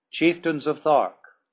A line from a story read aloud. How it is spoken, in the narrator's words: I cried